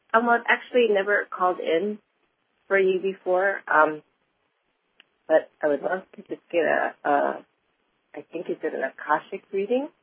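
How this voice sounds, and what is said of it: Slightly congested voice. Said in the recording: “I've got a bit of a cold”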